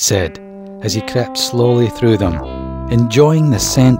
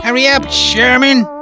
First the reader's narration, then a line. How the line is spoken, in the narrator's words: shouted Perry the potato bug from behind him